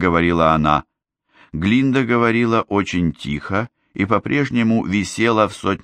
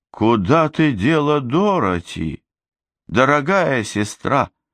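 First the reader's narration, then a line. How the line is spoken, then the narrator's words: Cooing. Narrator (Russian): проворковала Гламора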